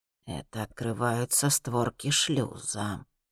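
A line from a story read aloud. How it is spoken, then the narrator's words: Barely audible explanation. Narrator (Russian): чуть слышно объясняет Элифос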